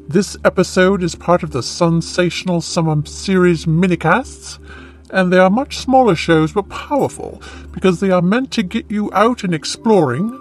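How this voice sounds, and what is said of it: British-accented character voice. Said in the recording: “a talking chimpanzee with a British accent”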